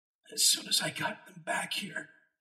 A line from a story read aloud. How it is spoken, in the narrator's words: he said, his voice a hoarse whisper